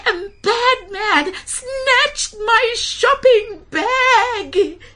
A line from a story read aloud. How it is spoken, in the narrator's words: cried Gogo